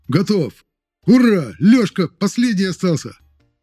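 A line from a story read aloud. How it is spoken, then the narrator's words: Joyful cry, then panicked shout. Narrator (Russian): Радостно воскликнул мой второй номер и тут же громко с нотками паники в голосе закричал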